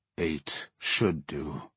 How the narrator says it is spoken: the captain muttered

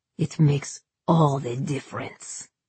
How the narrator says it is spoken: he snarled

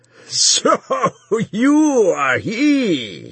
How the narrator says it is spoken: he roared

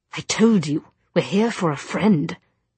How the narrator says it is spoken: he snapped

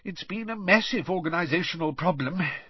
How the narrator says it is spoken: sighed Mr

